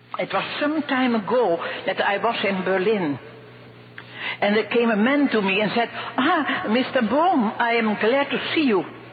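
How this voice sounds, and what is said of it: Very thick foreign accent. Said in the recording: “she has a very thick accent”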